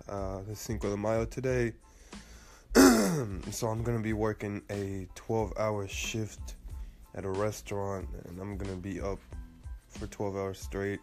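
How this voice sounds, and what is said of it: Congested, tired-sounding voice. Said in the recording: “my voice sounds really just off, not like usual. I'm getting pretty sick with my allergies, and I'm just exhausted.”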